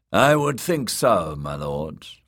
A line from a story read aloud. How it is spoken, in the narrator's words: Aurain Waters said dryly